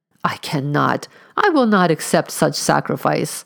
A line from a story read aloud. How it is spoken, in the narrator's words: exclaimed the stranger